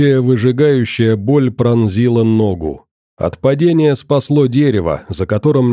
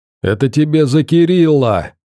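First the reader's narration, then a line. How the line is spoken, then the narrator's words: Laughing hoarse yell. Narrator (Russian): смеясь, проорал хриплый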